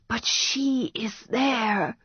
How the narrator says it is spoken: the girl whispered

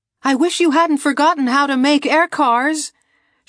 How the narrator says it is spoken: she shouted to Seiko Esmet

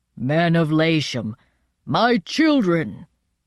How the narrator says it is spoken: he said in his strong voice

